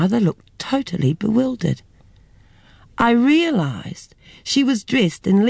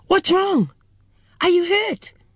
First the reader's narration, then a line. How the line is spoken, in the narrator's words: My mother let out a terrified yell, screamed